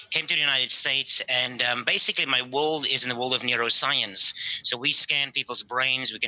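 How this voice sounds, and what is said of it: South African accent. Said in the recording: “Got a funny accent. I'm from South Africa.”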